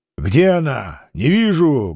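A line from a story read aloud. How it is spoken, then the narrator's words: Loud. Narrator (Russian): громко сказал Петр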